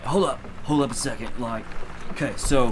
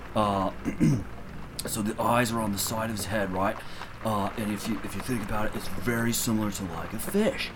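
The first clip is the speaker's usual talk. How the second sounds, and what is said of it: Put-on Australian accent. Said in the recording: “did you become Australian all of a sudden? ... Am I talking like an Australian? ... I did that on purpose.”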